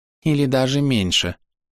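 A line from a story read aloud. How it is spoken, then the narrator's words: Sighing. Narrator (Russian): вздохнул Парвунах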